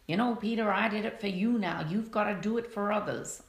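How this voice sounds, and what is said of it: Put-on accent quoting someone. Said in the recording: “Sorry about the accent.”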